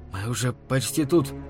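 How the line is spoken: Broken, unusual whisper. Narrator (Russian): заверил он ее прерывающимся шепотом, совсем не похожим на его обычный голос

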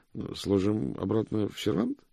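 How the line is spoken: Uncertain suggestion. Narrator (Russian): предложил мокрец неуверенно

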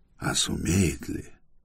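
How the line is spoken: Whispered question to himself. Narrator (Russian): мысленно он шепотом спросил у самого себя

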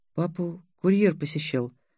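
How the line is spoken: Quiet boy. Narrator (Russian): сказал мальчик негромко

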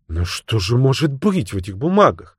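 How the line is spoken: Exclamation. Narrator (Russian): воскликнула Фреда

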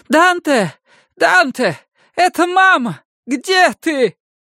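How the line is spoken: Hoarse, desperate voice. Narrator (Russian): Голос прозвучал хрипло, отчаянно

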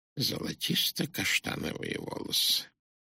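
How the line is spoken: Sudden whisper. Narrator (Russian): Он ни с того ни с сего прошептал

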